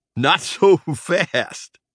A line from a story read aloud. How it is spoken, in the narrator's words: Trap said, giggling